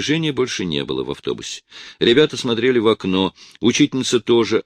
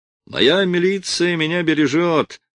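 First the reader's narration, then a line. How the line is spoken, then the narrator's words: Laughing. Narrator (Russian): засмеялся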